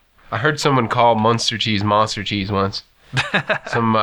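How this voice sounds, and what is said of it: Usual voice. Nothing is said of it.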